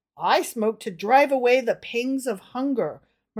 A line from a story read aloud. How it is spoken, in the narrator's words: murmured the thin, poor man apologetically